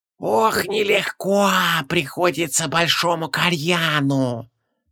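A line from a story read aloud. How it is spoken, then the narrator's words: Creaky old woman, straining. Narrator (Russian): Проскрипела старуха, с трудом поднимаясь по ступеням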